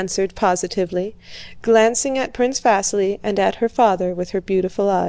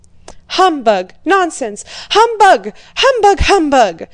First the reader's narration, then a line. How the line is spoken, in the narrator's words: cried Prince Bolkonski, frowning